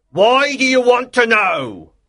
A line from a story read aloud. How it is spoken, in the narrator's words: replied loudly